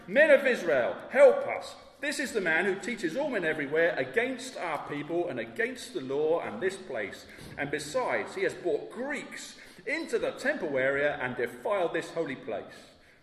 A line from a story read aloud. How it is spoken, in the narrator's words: shouting